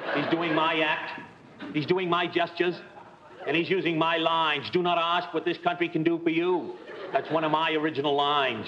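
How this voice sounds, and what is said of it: Impression of John F. Kennedy. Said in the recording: “his impression of Kennedy was and is nothing short of sensational ... When he did Kennedy, it was perfect. Absolutely perfect.”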